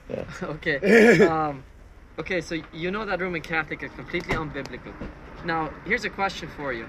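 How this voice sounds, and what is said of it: Canadian accent. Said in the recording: “Are you from Canada? ... I can tell. ... Your accent.”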